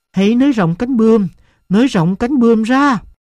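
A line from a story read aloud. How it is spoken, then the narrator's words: Shouting. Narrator (Vietnamese): tôi hét lên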